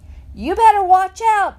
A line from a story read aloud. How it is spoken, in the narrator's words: Dunlap hollered